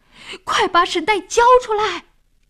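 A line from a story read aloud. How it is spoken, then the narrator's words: Loudest shouting. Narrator (Chinese): 老王喊的声音最响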